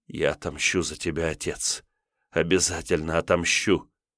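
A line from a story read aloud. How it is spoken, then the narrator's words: Whispering, holding back tears. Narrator (Russian): кривясь в едва сдерживаемом плаче, шептали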